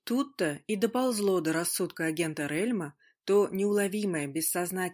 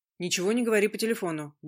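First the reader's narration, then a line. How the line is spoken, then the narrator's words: Quick warning. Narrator (Russian): быстро предупредил он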